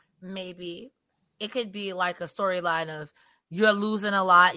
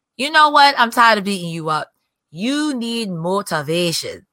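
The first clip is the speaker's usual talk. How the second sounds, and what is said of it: Badly done put-on accent. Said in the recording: “That was a horrible accent. ... Sorry, that was a horrible accent.”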